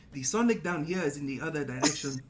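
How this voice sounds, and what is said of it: Imitates a film character's accent. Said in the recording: “in the accent, ... damn, that was pretty good. ... trying to copy the lines when T'Challa's talking.”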